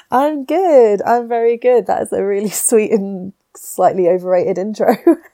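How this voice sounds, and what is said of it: Nasal, stuffed-up, husky voice. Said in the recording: “I have a bit of a cold ... You're a little stopped up. ... if I sound a bit nasally, let's just go with husky and sexy”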